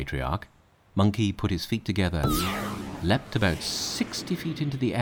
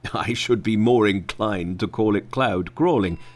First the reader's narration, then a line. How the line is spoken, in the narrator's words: said the Patriarch, laughing